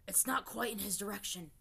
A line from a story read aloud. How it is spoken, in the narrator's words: Zuko rasped